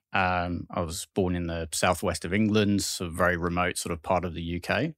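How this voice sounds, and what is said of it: English accent. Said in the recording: “Your accent denotes Englishman something like that.”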